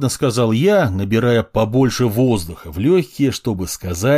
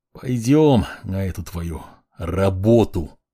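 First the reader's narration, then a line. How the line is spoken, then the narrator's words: Forced, reluctant words. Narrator (Russian): Выдавил я из себя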